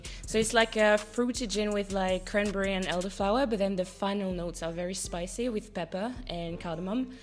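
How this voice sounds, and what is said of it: Speaker with a noticeable accent. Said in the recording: “I love her accent. I love her accent.”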